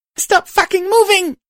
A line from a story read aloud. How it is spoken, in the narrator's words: Sorrow screeched